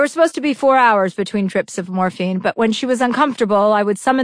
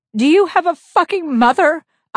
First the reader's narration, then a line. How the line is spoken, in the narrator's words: I wailed